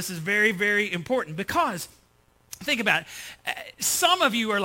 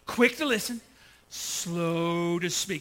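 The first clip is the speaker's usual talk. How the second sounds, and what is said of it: Slow drawl, East Texas accent. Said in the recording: “say it slowly ... Use that East Texas accent”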